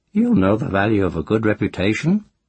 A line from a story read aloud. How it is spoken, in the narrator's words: Moss said dryly